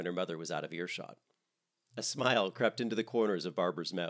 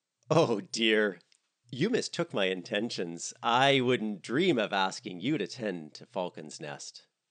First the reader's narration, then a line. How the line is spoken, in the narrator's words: Dorothy laughed